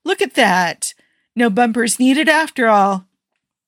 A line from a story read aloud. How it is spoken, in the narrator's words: Tony exclaimed